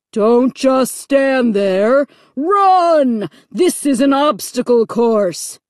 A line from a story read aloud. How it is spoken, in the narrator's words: the voice boomed impatiently